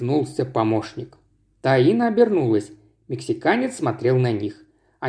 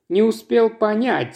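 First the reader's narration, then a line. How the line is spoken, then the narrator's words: Snorting. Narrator (Russian): хмыкнул Вадим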